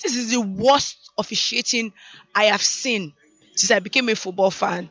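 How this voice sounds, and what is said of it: Hoarse, lost voice. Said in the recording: “I've lost my voice.”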